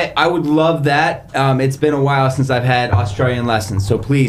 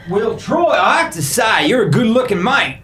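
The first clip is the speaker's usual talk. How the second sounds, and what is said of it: Australian accent, Steve Irwin-like. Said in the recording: “your Australian voice ... You sound more like Steve Irwin, the late crocodile hunter, than a typical Aussie, but that wasn't bad.”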